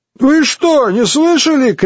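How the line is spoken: Shout. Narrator (Russian): крикнул Пашко Рымбаба

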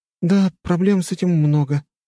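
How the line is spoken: Sighing. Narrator (Russian): вздохнула она

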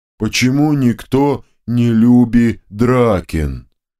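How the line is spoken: Hurt, booming second head. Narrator (Russian): Обиженно прогудела вторая голова

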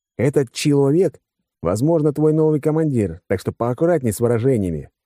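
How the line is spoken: Wry grunt. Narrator (Russian): хмыкнул я

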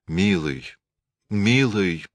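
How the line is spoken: Gloomy, stormy speech. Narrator (Russian): заговорила она уныло и бурно

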